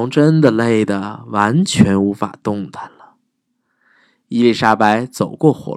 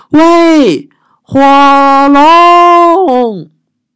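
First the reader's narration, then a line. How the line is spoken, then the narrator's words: Shouting as loud as possible. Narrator (Chinese): 尽可能大声的喊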